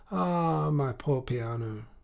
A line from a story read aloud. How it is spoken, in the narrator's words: she sighed